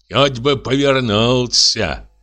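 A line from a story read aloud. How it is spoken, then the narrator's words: Grumbling servant. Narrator (Russian): ворчал слуга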